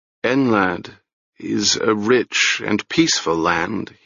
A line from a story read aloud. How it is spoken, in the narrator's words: he said slowly